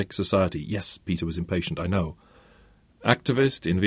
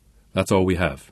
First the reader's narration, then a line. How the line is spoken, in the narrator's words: said